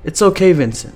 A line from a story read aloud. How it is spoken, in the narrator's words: Chase says